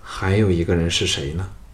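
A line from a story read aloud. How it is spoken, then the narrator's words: Resigned sigh. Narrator (Chinese): 无奈的 叹道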